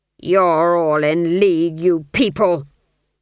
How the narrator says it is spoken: the duke snarled

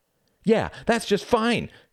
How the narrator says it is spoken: shouted Reginald

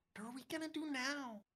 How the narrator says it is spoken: Gina whispers

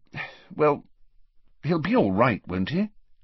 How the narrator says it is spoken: said the Prime Minister anxiously

